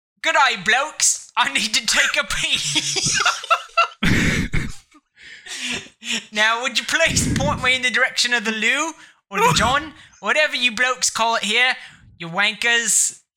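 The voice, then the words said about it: Put-on British accent. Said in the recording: “That's really how you sell the British accent.”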